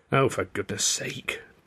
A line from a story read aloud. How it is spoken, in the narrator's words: Tilly muttered